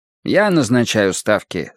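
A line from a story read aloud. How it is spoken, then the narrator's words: Plain. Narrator (Russian): сказал Бреслауэр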